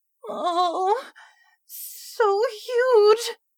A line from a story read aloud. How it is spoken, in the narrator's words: Laura moaned to herself quietly